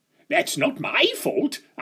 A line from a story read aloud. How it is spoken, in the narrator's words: spluttered